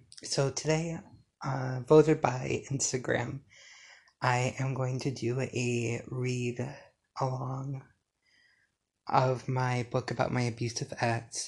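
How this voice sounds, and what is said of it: Strained, failing voice. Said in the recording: “Excuse my voice, it's probably going to go out a lot during this episode”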